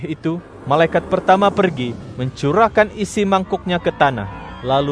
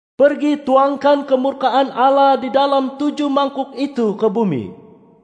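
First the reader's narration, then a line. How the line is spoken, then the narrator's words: Loud voice from temple. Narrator (Indonesian): suara lantang dari dalam bait suci Allah berkata kepada 7 malaikat itu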